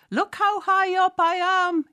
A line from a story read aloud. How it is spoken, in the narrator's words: she yells